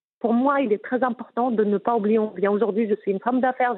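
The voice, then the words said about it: Moroccan-accented French. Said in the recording (French): “t'as vu ton accent ... je n'ai pas envie d'abandonner mon accent ... je suis marocaine”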